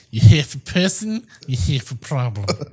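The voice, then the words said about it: Put-on Russian accent. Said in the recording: “The only thing I know how to say in a Russian accent is”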